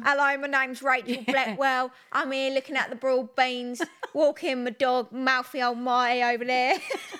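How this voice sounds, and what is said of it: Mock posh voice. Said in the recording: “put on my posher voice ... that was weird”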